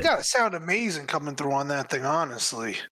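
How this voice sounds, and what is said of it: Raspy, hoarse voice. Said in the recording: “the raspy voice ... I'm a little more hoarse today because I was out there in the cold today. So we're getting our voice back little by little.”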